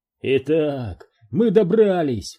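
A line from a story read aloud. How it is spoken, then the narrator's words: Exclaiming. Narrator (Russian): воскликнул Макгрудер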